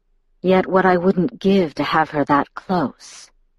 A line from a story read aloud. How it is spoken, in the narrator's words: he murmured